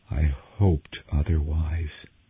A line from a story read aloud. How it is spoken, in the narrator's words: he breathed